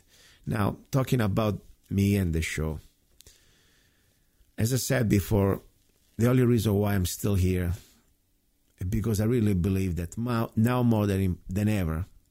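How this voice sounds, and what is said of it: Tired voice. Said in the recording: “My voice sounds tired. I can't even speak straight. I slept 3 hours last night.”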